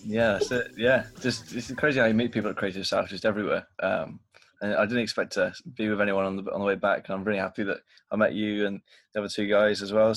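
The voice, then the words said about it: Noticeable accent. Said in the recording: “you opened your mouth and I heard an accent.”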